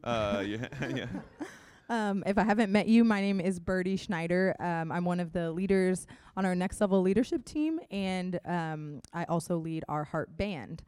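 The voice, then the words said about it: Hoarse, fading voice. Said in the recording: “I'm losing my voice a little bit”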